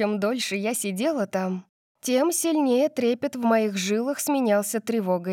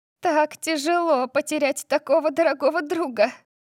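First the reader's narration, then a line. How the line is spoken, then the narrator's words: Sobbing. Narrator (Russian): рыдала Кайли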